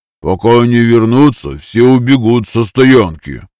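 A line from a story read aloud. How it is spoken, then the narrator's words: Grumbling. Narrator (Russian): проворчал Энку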